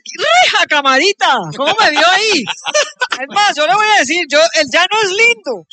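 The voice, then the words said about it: Put-on regional Colombian plains accent. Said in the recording (Spanish): “A mí se me pegan todos los acentos.”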